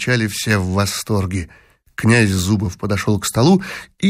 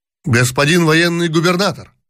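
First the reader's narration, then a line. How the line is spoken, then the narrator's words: Shouted. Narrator (Russian): крикнул кто-то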